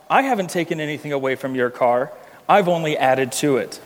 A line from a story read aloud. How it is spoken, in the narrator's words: you calmly reply